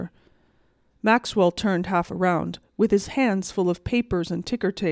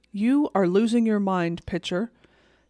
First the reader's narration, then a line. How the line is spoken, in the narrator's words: said Maxwell